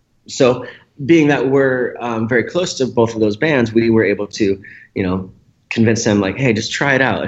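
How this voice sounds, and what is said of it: Hoarse, strained voice with throat-clearing. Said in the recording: “<clears throat> sorry, I'm losing my voice here.”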